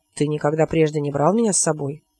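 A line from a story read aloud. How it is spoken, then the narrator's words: Snorting. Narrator (Russian): Робин фыркнул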